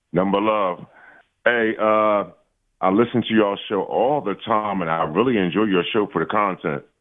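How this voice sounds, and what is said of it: Deep, smooth male voice. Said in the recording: “It's a deep voice. ... Sounds smooth.”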